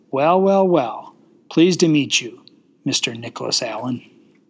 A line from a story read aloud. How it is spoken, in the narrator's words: She chuckled and said